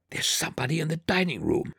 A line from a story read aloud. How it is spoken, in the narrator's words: I whispered